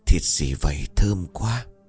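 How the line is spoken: Old man, trembling. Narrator (Vietnamese): lão khẽ run rẩy

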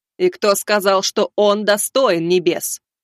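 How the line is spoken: Thunderous, losing patience. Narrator (Russian): прогремела она, явно теряя терпение

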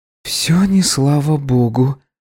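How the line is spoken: Quiet, in Italian. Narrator (Russian): тихо произнесла Джилл, перейдя на итальянский

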